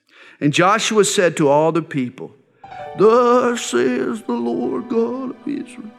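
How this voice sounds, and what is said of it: Old man voice impersonation. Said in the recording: “He's an old man, you know, he's 110 years old. ... That's my old man impersonation, but it didn't work very well”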